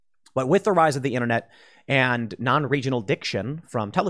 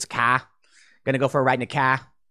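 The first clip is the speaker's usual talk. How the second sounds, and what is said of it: Imitated Boston accent. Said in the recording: “the Boston accent. What is it? What is Massachusetts?”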